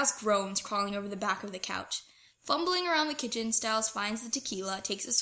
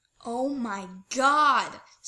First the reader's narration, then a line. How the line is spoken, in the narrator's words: Styles says, groaning